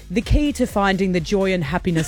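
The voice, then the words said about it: Put-on posh British accent. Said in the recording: “I'm doing it in a British... ... Is this your posh British accent?”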